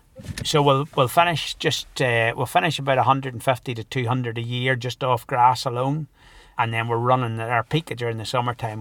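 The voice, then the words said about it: Northern Irish accent. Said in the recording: “that is not a Scottish accent ... originally from County Down in Northern Ireland”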